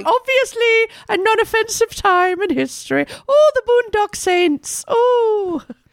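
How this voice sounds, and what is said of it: Terrible put-on Irish accent. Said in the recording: “terrible accent”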